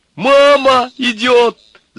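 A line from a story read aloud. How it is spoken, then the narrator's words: Joyful shout. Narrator (Russian): закричал радостно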